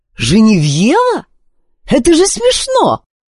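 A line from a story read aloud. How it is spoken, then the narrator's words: Exclaiming. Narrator (Russian): воскликнула она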